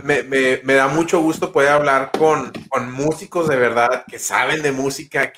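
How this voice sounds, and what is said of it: Spanish with American Texan accent. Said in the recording (Spanish): “mi acento gringo, es mi acento texano”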